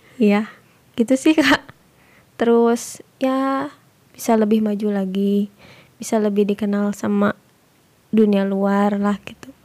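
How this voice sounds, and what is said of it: Very hoarse voice. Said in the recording (Indonesian): “sampai serak. ... sampai serak banget.”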